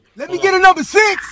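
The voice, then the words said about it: Loud yelling voice. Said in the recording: “why you yelling? ... You loud as hell.”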